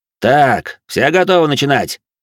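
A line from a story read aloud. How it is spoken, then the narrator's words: Loud question. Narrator (Russian): громко спросил Габриэль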